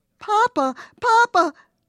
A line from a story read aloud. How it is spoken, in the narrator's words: we cried